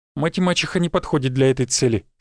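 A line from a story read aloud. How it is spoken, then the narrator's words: Calm. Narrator (Russian): спокойно ответил я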